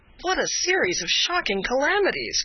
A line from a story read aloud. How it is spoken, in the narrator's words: cried Candide